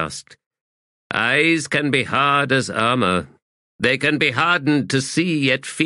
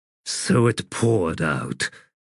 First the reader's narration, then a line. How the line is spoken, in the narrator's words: grumbled Erastus